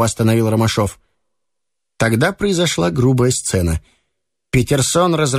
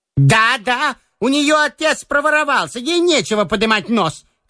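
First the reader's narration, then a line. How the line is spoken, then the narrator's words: Shouting. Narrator (Russian): кричала Петерсон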